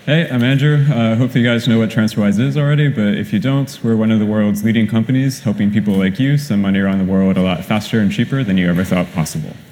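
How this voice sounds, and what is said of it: British accent. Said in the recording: “he has a great British accent, obviously”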